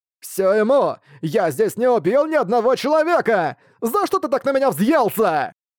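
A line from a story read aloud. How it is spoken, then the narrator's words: Shout while running away. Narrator (Russian): Продолжая убегать, крикнул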